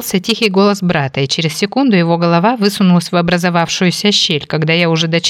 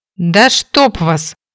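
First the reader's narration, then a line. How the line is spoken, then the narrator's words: Growling. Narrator (Russian): рыкнула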